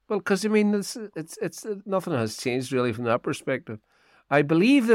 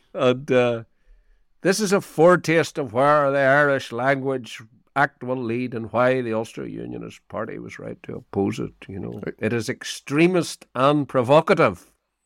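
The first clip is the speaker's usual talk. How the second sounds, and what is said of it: Ian Paisley impression. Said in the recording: “doing your Ian Paisley impression”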